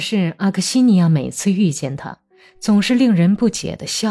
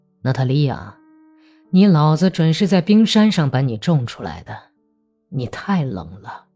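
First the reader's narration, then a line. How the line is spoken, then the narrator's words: Wistful lamenting sigh. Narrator (Chinese): 格里高利一想起阿克西尼亚那狂热的激情时，就感叹道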